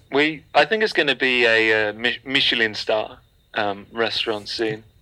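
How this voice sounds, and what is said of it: Slight put-on accent. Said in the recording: “You just put on a little accent there”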